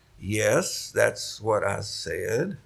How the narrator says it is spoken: John, a little taken back at this abruptness, said slowly

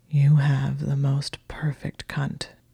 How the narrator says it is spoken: he said huskily

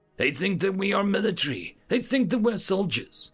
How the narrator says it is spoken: another said

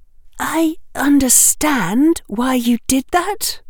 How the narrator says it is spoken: Hermione said, her voice tight

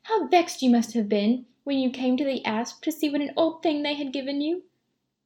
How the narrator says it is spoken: cried Louisa

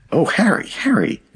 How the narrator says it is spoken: exclaimed the maiden

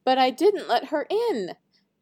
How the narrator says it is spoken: pleaded Snow White

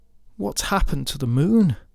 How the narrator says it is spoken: they begged of her

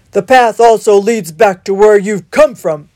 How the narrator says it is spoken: spat the wildcat

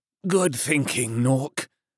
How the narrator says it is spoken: grunted the colonel through clenched teeth and mounting pain

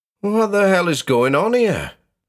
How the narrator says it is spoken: Rosie blurted

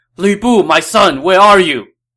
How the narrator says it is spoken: Dong Zhuo cried out in desperation

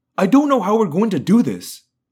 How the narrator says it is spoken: I blurted

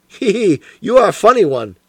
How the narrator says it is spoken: chuckled the inspector

